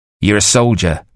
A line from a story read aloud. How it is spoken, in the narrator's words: Hook snapped at him